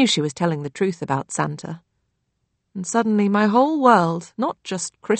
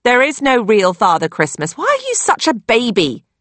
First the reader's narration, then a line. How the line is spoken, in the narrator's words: snapped my sister